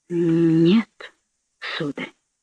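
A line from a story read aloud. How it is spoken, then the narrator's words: Bewildered mutter. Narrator (Russian): пробормотал Сергей Латко, чувствуя, что сходит с ума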